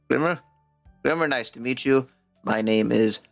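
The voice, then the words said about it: Gnome character voice, voice breaking. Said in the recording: “This voice. ... The gnome has a voice break.”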